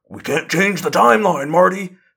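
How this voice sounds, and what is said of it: Bad Doc Brown impression. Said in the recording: “That was a very bad Doc Brown impression.”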